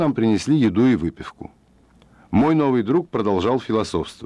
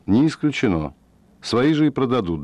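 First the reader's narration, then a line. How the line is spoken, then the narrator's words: Calm reply. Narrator (Russian): Фред спокойно ответил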